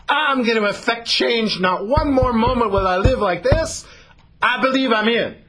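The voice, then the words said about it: Put-on Southern American accent. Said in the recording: “Got to have the southern accent, right?”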